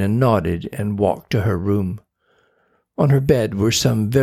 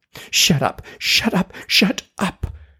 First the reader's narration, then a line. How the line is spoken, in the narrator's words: she whispered harshly